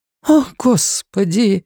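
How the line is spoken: Woman's breathless gasp. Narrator (Russian): выдохнула одна женщина

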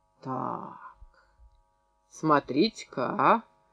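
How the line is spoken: Mocking, slightly surprised. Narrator (Russian): промолвил Демид не столько удивленно, сколько насмешливо

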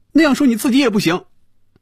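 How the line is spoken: Loud. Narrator (Chinese): 菲比大声说

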